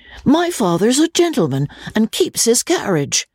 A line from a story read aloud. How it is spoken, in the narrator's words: the latter replied haughtily